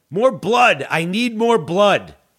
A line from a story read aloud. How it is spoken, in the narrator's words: people yelled